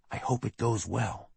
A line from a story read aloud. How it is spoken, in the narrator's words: Mirabel stage whispered